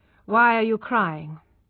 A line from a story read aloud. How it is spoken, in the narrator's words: he asked coldly